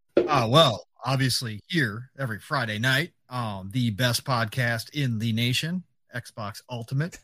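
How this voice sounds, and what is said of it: Rich, sultry FM radio voice. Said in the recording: “that rich and sultry FM radio voice”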